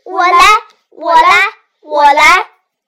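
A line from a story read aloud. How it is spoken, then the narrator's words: Children shouting in unison. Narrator (Chinese): 所有的孩子…同声喊道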